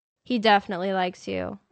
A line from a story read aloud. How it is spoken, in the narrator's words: Eliza said